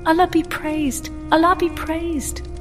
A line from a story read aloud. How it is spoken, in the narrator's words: I was so overcome with joy at this sight that I forgot all the old man had told me and cried out